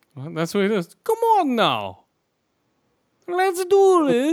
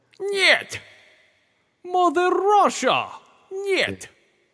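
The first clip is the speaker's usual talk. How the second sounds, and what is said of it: Unconvincing put-on Russian accent. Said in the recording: “Keep working on that Russian accent.”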